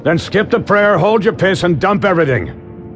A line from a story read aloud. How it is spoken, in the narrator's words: he yelled back